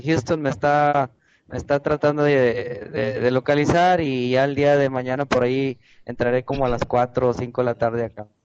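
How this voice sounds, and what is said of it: Mexican Spanish accent. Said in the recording (Spanish): “me encanta el acento de los mexicanos”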